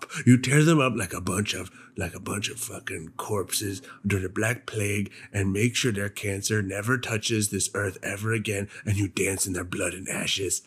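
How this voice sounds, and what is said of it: Weird put-on ranting voice. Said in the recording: “I don't know where this voice is coming from. ... A weird voice. ... It's a terrible voice.”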